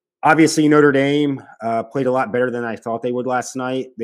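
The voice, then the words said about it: Hoarse, strained voice. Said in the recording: “many of you can hear now, my voice is kind of shot at the moment ... I scream a lot, I shout a lot”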